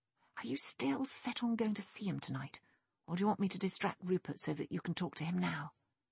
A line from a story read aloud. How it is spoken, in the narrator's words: Nick leaned over and whispered